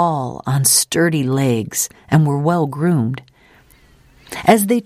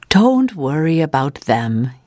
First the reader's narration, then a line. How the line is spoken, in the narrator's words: chuckled